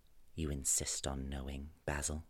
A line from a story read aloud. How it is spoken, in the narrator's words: said in a low voice